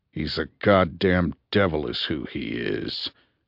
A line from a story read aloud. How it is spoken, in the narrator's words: growled Kuga